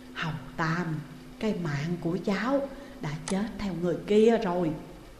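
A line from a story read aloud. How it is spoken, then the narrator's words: Weak drained mumble. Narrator (Vietnamese): Sức lực và khí thế khiến người ta sợ hãi trước đó đều đã nhanh chóng biến mất, nhưng miệng vẫn lẩm bẩm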